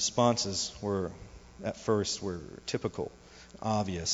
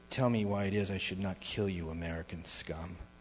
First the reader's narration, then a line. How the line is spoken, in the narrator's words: Using an insurgent's accent, whisper